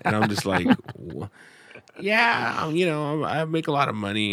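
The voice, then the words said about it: Impression of a friend's impression. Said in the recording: “doing an impression of Eddie doing an impression of Lindsay ... That was really good”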